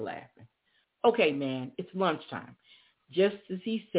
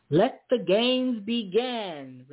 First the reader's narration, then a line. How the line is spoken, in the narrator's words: Reverend Garden yelled